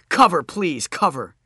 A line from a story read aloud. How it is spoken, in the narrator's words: I yelled